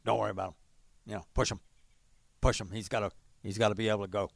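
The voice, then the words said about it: Gruff barking drill-sergeant voice. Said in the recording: “he had a kind of a gruff speaking mannerisms ... not a bad impression ... pretty spot on. It was kind of like a drill sergeant, you know, barking at you”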